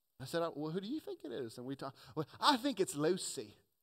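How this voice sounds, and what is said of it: Put-on British accent. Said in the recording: “I somehow go into a British accent.”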